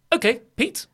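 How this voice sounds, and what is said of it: Clipped impression of a colleague. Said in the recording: “try and do a Dave impression ... he speaks in a very clip way, and he's going to speak like this ... Dave impression”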